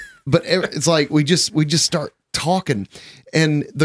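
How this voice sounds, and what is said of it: Usual voice. Nothing is said of it.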